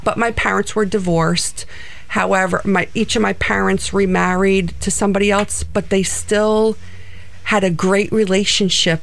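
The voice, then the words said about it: New Jersey accent. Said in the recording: “I thought I heard a little of that in your voice ... I still have my New Jersey accent”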